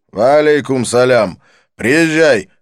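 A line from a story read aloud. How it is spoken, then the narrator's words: Barking. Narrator (Russian): рявкнул он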